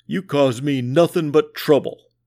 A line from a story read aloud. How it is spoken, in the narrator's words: the Sarge growled at the Sad Sack